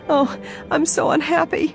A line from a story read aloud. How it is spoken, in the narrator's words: sobbed